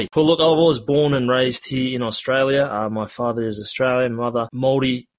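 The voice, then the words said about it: Australian accent. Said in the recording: “You can probably hear it in my voice. I do have an Australian accent”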